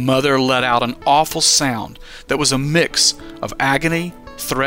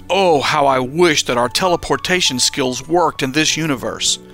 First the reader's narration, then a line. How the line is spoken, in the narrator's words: Daniel sharply lamented